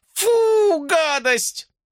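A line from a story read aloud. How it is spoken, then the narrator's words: Shouting. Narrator (Russian): закричала Джулия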